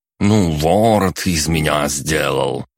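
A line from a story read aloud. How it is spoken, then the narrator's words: Grumbling. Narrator (Russian): проворчал Боря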